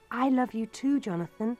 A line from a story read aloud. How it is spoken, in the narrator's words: I replied